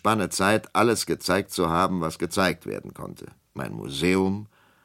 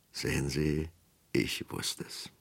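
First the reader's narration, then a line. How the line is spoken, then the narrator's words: Whispered aside. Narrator (German): flüsterte er ihm zu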